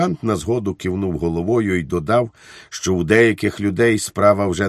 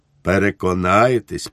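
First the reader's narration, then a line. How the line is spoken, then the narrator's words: Calmer, friendly repetition. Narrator (Ukrainian): повторив він уже спокійнішим тоном, приєднавши до цього приязний усміх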